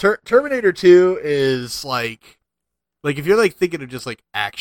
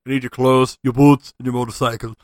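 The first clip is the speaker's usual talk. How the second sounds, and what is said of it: Imitates another person's voice, badly. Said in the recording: “my horrible Arnold Schwarzenegger impression”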